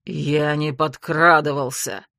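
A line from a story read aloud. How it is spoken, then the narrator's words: Growled. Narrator (Russian): рыкнул Ян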